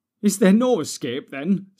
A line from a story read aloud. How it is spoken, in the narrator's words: said Frodo, looking round wildly